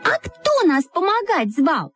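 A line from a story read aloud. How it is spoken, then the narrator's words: Shouting in unison. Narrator (Russian): закричали мы в один голос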